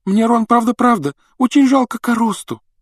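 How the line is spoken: Sobbing. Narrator (Russian): рыдала она

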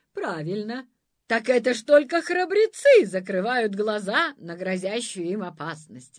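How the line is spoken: Laughing. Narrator (Russian): рассмеялась нянюшка-мамка

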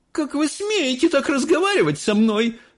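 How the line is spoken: Shouting. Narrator (Russian): закричала миссис Солт

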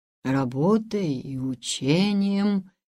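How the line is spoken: Thoughtful drawl. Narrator (Russian): задумчиво протянул Раф

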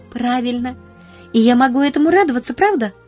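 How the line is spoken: Exclaimed. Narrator (Russian): воскликнула она

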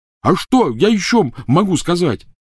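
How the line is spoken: Yelling. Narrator (Russian): заорал Рон

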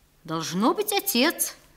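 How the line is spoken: Thoughtful reply. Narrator (Russian): ответил он задумчиво, как будто этот вопрос не приходил ему в голову

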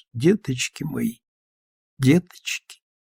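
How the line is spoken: Tearless whisper. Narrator (Russian): Марья Власьевна шептала без слез

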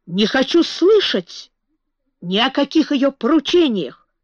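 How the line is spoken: Shout. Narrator (Russian): закричал граф

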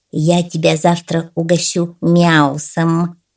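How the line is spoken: Cat's purr. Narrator (Russian): промурлыкал псу кот

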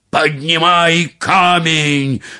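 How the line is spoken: Terrifying shout. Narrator (Russian): закричал Магрибинец страшным голосом

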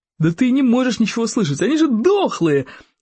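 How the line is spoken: Joyful exclamation. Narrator (Russian): радостно воскликнул бандюк

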